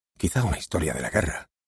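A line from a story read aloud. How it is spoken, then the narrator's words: Whispering. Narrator (Spanish): susurraba otro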